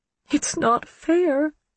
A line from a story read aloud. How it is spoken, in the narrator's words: she whimpered